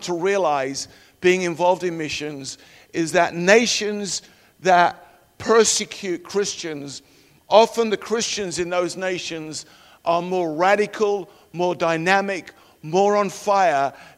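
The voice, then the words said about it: Non-American sounding accent. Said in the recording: “We are actually Americans. You might not tell that by our accent”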